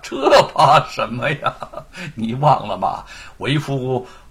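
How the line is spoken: Laughing. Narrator (Chinese): 沈坤笑起来了

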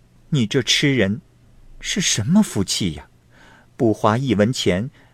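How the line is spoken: Woman laughing. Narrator (Chinese): 那女郎笑着说

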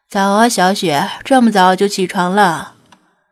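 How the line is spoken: Said with a smile. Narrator (Chinese): 金二笑道

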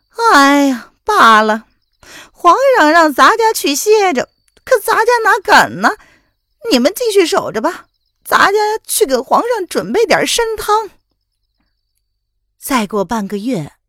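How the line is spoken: Sighing. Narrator (Chinese): 叶安叹了口气

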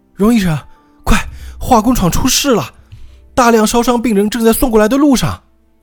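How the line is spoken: Urgent shouting. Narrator (Chinese): 护士……冲着外婆大喊

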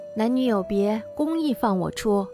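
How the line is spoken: Quiet. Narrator (Chinese): 又小声曰

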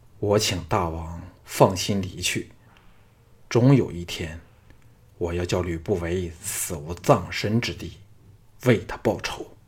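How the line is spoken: Hoarse voice. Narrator (Chinese): 沙哑的声音说

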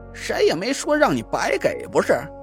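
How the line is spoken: Laughing. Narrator (Chinese): 蒋亮笑道

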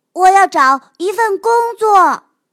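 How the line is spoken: Shouting. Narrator (Chinese): 约翰喊道

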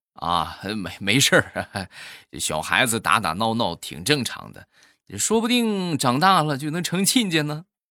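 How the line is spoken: Laughing. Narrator (Chinese): 这个同事笑着就说

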